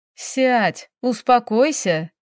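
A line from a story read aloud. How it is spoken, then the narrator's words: Laughing. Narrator (Russian): рассмеялась Феофания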